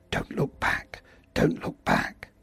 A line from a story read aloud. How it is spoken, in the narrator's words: mumbled under his breath